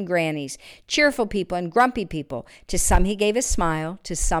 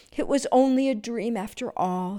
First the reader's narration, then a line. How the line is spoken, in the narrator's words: he said sadly